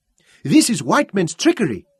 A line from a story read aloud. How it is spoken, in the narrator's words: cried